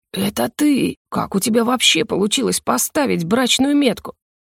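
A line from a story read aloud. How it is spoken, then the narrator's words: Angry growl. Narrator (Russian): гневно рыкнул лорд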